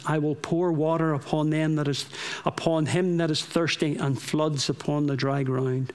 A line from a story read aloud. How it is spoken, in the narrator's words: pleaded day and night in prayer